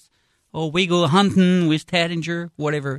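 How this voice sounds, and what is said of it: Put-on Southern accent. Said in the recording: “having fun with the Southern accent thing”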